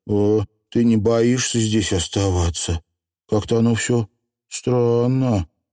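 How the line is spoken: Uncertain question. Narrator (Russian): неуверенно спросила

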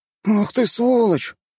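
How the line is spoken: Sudden exclamation. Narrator (Russian): вдруг воскликнул он

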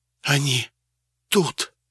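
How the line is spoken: Whisper. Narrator (Russian): шепнула Алиса

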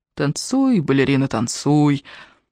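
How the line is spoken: Soft pleasant humming. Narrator (Russian): Мягко напевал он, и голос его был вовсе неплох

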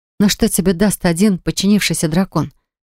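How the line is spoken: Trembling question. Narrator (Russian): спросил я дрожащим голосом

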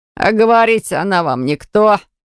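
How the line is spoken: Driver snorting. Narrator (Russian): хмыкнул погонщик

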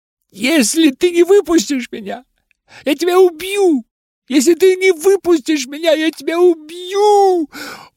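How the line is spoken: Shrieking wail. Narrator (Russian): Он скорее провопил, чем говорил

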